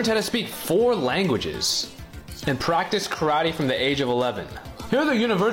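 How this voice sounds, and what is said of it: Usual voice. Nothing is said of it.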